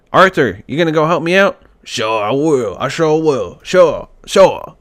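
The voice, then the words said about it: Imitates a video game character's voice. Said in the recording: “my Arthur Morgan impression... I'm terrible. I'm terrible.”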